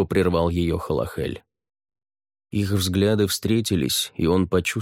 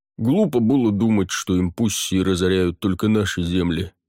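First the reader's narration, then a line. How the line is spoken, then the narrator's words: Deep bass. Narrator (Russian): пробасил Барниш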